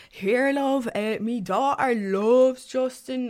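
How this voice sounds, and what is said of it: Put-on Dublin accent. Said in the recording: “This old man with a pure dub accent”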